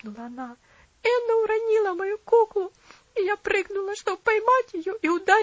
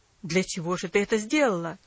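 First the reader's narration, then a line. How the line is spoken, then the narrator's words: Angry exclamation. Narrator (Russian): сердито воскликнул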